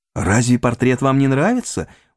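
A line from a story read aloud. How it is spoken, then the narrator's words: Slightly hurt exclamation. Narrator (Russian): воскликнул, наконец, Холлорд, немного задетый непонятным молчанием Дориана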